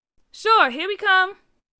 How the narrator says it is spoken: Carr yelled back

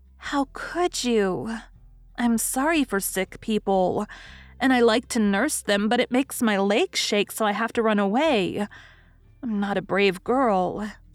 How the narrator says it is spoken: sighed Daisy

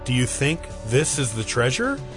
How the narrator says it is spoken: Christine asked

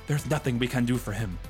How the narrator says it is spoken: Juan García Ramírez de Arroyo said in his wonderful accent

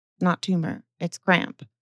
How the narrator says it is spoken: Lydgate said to the house surgeon in an undertone

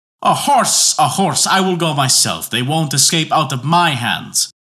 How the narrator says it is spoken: yelled Boney, foaming at the mouth

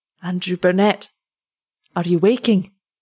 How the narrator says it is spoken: he called in a melancholy tone

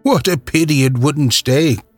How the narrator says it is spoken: sighed the laureate

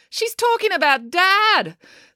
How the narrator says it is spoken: exclaimed April

